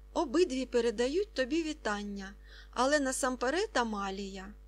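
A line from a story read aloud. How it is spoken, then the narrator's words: Plain. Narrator (Ukrainian): сказав Варнава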